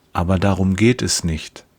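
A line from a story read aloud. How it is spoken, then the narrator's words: Gentle. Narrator (German): sagt er sanft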